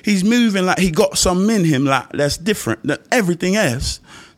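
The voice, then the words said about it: Badly done put-on accent. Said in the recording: “That's a terrible accent”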